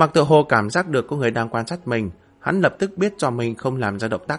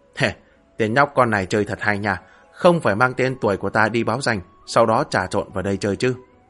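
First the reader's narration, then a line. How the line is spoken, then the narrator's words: Amused chuckling mutter. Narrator (Vietnamese): Lục Vô Hổ có chút hứng thú ... bỗng nhiên cười lẩm bẩm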